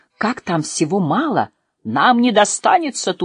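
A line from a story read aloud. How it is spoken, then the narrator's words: Shouted immediately. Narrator (Russian): тут же крикнул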